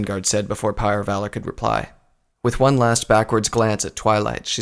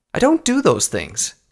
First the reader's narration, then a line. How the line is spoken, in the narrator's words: Twilight snapped